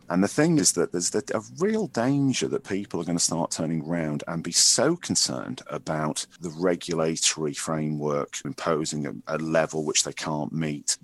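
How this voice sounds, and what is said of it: Northwest English accent. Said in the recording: “As you might tell from the accent, I'm originally from the northwest of England”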